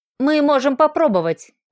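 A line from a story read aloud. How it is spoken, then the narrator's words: Uncertain reply. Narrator (Russian): неуверенно ответил Киран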